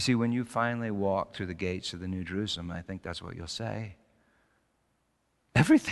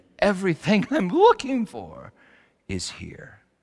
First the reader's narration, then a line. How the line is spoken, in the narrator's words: Sharon says, she gleefully exclaimed